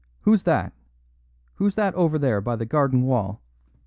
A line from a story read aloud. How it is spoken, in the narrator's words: the unnerved Galloway called out sharply